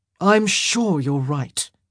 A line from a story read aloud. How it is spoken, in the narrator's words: he sighed